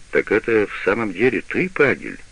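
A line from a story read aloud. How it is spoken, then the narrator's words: Plain. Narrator (Russian): сказал господин Фонсеки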